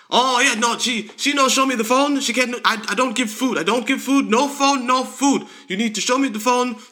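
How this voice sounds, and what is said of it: Fast broken English, heavy Chinese accent. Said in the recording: “the most stereotypical Chinese food restaurant employee owner ... Talking real fast, broken, ... English, heavy accent.”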